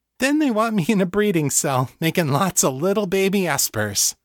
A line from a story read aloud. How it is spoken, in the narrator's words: she added, laughing